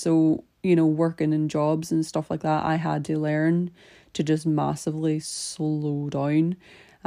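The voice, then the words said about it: Northern Irish accent, slowed down. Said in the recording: “I just go full on Irish ... I had to slow down my accent massively ... speaking so fast in my Irish accent”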